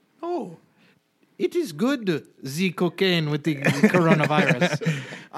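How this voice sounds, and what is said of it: Poor fake French accent. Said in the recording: “My fake French yeah, accent was is awful... Poor... it's terrible. I have no fake French accent.”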